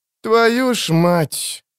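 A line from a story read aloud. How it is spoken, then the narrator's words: Drawn-out, trembling, desperate. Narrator (Russian): протянул Эрик, и в этих словах слышались трепет и отчаяние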